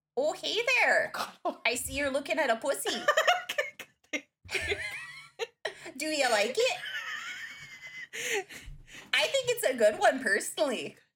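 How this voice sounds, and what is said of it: Midwestern aunt accent. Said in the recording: “I become your Midwestern aunt ... say pussy in that accent”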